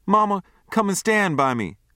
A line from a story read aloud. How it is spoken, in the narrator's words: I begged